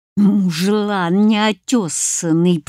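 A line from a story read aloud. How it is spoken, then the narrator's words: Hissing in helpless anger. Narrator (Russian): прошипела я, стиснув кулаки от бессилия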